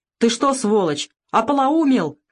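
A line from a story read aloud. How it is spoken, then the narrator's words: Shout. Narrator (Russian): крикнул Савелий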